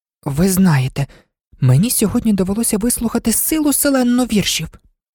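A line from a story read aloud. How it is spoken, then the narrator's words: Slightly frightened. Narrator (Ukrainian): Почала Аліса трохи злякано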